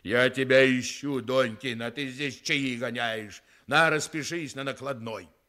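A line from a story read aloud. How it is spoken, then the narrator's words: Angry booming bass. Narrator (Russian): громадный человечище сказал сердитым басом, как из бочки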